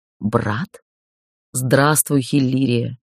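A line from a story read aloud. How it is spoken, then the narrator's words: Warm, gentle voice. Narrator (Russian): Удивительное тепло в голосе, лишенное рычащих ноток или жестких интонаций правящего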